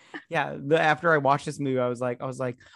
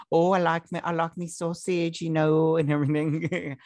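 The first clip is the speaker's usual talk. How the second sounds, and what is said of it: Put-on Cockney British accent. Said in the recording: “I don't know if this is a Cockney accent or not.”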